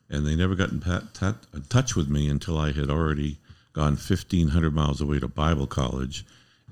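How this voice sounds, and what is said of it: Good radio voice. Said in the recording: “you have a very good radio voice”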